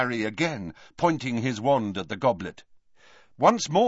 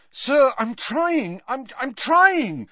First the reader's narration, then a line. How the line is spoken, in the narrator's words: said Harry desperately